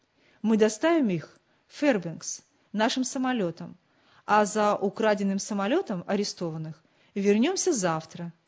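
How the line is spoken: Plain. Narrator (Russian): сказал старший пилот

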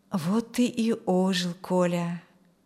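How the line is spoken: Mumbled. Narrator (Russian): пробормотал Юрген

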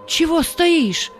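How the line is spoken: Shout. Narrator (Russian): крикнул ему Павел

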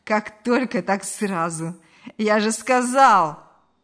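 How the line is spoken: Dirty laugh. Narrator (Russian): Грязно рассмеялся Ильяс

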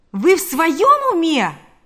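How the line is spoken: Merchant exclaiming. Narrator (Russian): воскликнул торговец иконами

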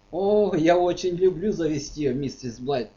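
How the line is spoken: Laughing. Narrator (Russian): засмеялся не раскаявший грешник

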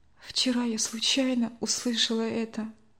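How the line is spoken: Quiet. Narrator (Russian): тихо ответила Надя

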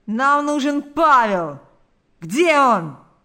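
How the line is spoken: Group shouting. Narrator (Russian): закричали они

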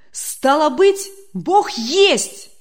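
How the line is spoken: Joyful exclamation. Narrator (Russian): радостно воскликнул Демьян Лукич

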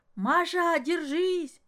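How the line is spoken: Shout. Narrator (Russian): крикнул Ломоносов

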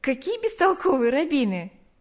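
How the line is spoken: Laughing. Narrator (Russian): засмеялась она

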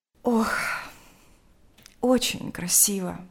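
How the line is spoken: Sighing. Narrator (Russian): сказала она, вздохнув

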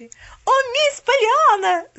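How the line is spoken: Woman yelling. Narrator (Russian): завопила она

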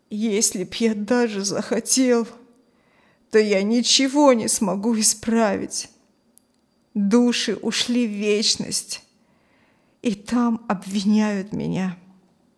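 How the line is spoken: Tearful repeating. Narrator (Russian): повторял Филина сквозь слезы

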